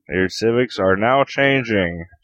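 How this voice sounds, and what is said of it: Generic dictator character voice. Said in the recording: “That's just my general dictator voice.”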